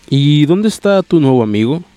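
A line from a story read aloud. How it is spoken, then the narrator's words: Plain question. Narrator (Spanish): preguntó Arcadi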